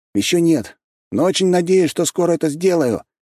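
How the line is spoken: Shouted in reply. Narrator (Russian): крикнул в ответ

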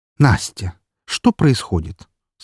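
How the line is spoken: Soft gentle question. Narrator (Russian): спросила она мягким тоном

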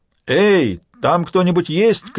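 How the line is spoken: Man shouting from outside. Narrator (Russian): крикнул мужчина снаружи

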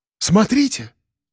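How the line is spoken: Exclamation. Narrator (Russian): воскликнул Серый

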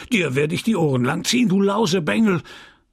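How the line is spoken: Cleric shouting angrily. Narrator (German): schrie der Geistliche mit zorniger Stimme

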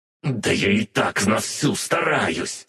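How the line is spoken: Hoarse through gritted teeth. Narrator (Russian): сквозь зубы просипел тот

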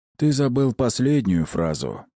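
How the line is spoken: Gloomy reply. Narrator (Russian): мрачно ответил

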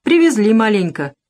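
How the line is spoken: Indifferent voice. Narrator (Russian): безразличным голосом сказал Тимоха

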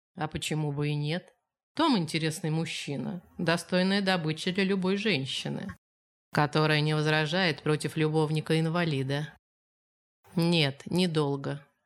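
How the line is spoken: Even-voiced reply. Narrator (Russian): ровным голосом ответила она

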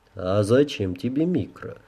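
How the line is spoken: Chuckling. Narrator (Russian): хохотнул разрушитель

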